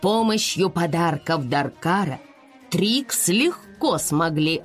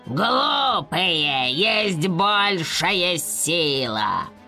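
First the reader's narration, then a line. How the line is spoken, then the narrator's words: Growl. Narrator (Russian): прорычал темный рыцарь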